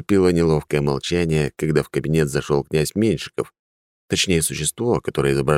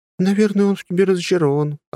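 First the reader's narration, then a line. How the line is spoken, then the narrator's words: Laughing. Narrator (Russian): рассмеялась Арина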